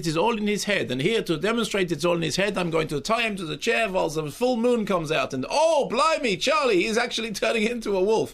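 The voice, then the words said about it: Put-on German accent. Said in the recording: “What was the accent there? ... I think he's doing Sigmund Freud German, but obviously I was doing Bulgarian. ... I was doing Werner Herzog. ... Bavarian”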